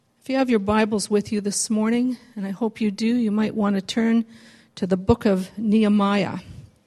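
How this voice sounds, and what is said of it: Hoarse, raspy, failing voice. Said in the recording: “My voice is going... when they have a raspy voice”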